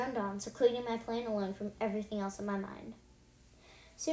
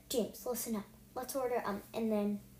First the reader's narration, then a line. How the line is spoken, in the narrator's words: I whispered in James' ear